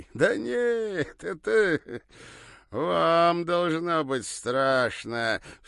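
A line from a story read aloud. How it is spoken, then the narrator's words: Smirking drawl. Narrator (Russian): все еще продолжая ухмыляться, протянул косоглазый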